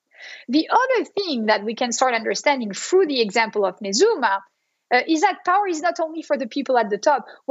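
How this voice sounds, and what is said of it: French accent in English. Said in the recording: “you're getting the French accent, right, through uh, that presentation. I, I am not a pure Bostonian... I'm a French American Bostonian”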